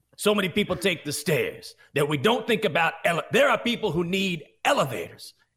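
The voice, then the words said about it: Yelling sports pundit impression. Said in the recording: “Stephen A. would yell ... that's a terrible impression”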